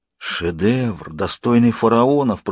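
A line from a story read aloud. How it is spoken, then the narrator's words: Whisper. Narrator (Russian): прошептал Кем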